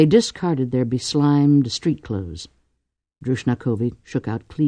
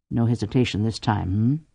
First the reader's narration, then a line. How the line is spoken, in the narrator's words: Cordelia murmured